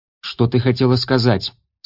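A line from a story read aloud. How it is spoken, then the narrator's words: Rather sharp question. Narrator (Russian): спросил Элиас довольно резким тоном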